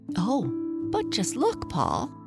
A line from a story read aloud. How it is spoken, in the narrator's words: said Lisa excitedly